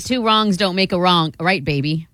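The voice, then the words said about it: Weird put-on accent. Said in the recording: “you're just throwing in that weird accent.”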